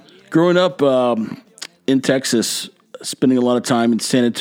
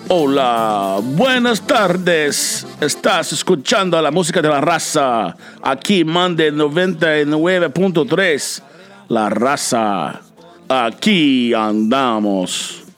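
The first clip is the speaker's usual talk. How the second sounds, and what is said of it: Mexican radio DJ impression. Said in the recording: “my best off-the-cuff Mexico radio personality impersonation ... They had these very distinct voices”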